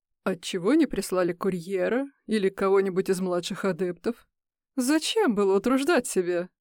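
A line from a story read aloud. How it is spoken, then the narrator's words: Mocking question. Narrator (Russian): Насмешливо поинтересовался Крис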